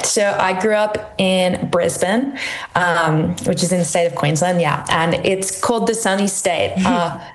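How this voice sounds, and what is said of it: Australian twang. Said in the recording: “not an Irish accent, maybe more of an Australian twang”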